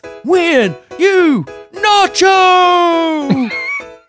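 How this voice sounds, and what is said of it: Announcer voice. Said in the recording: “Is that the announcer voice again? ... No, announcer voice.”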